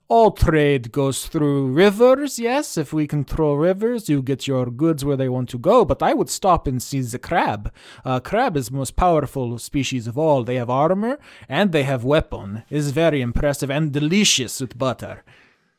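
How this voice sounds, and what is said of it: Put-on Ukrainian accent. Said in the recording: “I gave them my favorite accent. It's my family's Ukrainian accent.”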